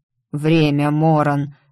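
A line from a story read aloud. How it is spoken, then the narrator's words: Guilty sigh. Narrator (Russian): виновато вздохнул старший сын императора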